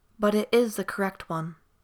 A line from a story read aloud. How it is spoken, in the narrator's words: Tariel said firmly